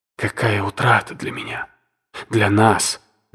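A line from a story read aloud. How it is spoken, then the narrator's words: Magnanimous self-correction. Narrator (Russian): великодушно поправилась она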